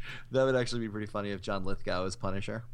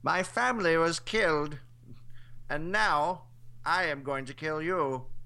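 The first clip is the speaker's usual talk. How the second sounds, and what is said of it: Skeletor-like villain impression voice. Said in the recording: “It's a good impersonation... It's kind of like Skeletor. That's my John Lithgow impression... Kind of sound like Vincent Price”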